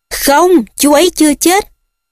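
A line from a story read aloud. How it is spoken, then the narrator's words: Screaming. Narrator (Vietnamese): Harry gào lên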